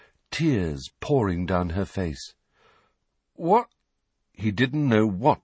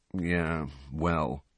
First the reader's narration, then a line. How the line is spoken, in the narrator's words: said Harry wearily